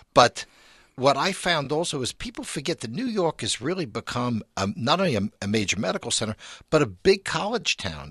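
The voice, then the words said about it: New York accent. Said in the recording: “as you can probably tell from my accent, it is my hometown ... New York”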